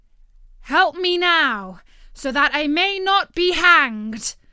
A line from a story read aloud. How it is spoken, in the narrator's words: cried the soldier